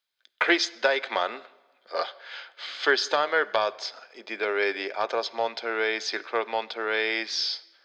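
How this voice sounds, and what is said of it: Flemish-accented English. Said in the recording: “here comes my Flemish accent.”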